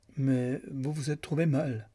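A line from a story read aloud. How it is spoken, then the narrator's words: Laughing. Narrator (French): dit Lucan en riant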